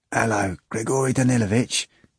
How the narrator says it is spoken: Stiopa began quietly

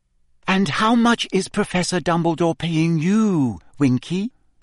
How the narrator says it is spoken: Hermione asked kindly

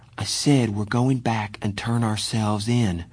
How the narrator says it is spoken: Johnny repeated in a quiet voice

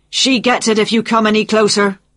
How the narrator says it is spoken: Jack shouted

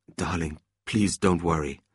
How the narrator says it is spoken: Oscar quietly advised his wife

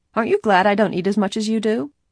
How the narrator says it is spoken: teasingly asked Bess

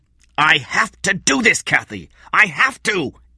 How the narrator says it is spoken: Eddie said angrily

